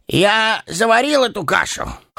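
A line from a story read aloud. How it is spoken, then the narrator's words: Forced cheerful grunt. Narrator (Russian): хмыкнул он, стараясь казаться веселым и беззаботным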